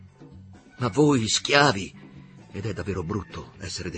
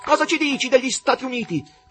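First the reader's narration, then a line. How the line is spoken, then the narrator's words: Spectator shouting. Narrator (Italian): gridò uno degli spettatori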